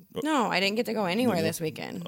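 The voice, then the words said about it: Fading, sultry evening voice. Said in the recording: “I got my sexy voice tonight. ... After 7, my voice starts to go”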